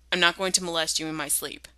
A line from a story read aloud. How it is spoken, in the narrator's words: Jared blurts before he can stop himself